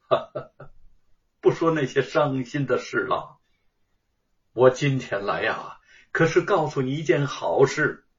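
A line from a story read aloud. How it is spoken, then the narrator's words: Sad, forced smile. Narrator (Chinese): 陶先生见他神情黯然，也不禁难过，强笑着说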